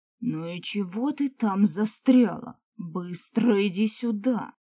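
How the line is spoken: Booming bass. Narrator (Russian): громыхнул своим басом Эолин

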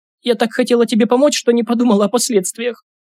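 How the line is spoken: Sobbing. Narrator (Russian): всхлипнула Карина

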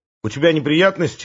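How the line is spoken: Plain. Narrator (Russian): спросил

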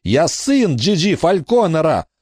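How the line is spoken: Shout. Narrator (Russian): закричал он

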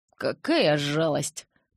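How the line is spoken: Mumbled. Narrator (Russian): промямлил

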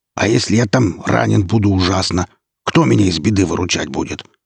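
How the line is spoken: Growling and yapping. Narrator (Russian): Кто-то зарычал и тявкнул голосом Рута

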